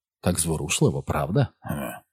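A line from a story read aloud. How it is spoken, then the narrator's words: Whisper. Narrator (Ukrainian): шепнув Ростан Дісмасу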